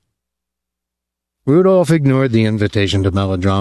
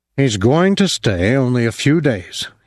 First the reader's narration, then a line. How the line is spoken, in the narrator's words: he said